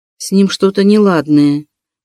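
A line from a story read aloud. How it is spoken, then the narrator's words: Uncertain reply. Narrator (Russian): неуверенно ответила Рита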